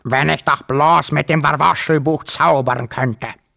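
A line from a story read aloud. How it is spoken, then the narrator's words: Croaking. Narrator (German): krächzte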